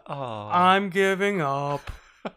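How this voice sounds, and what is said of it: Mopey Eeyore character voice. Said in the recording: “my Eeyore impression”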